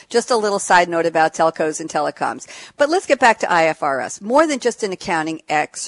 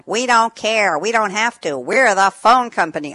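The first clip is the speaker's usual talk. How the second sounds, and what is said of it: Poor imitation of telephone operator character. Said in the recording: “She had a skit where she played a telephone operator named Ernestine with an old-fashioned headset ... I know my accent is terrible.”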